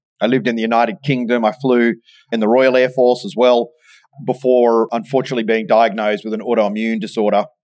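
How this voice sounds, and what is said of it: Australian accent. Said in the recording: “as my accent might give me away, in the Royal Australian Air Force”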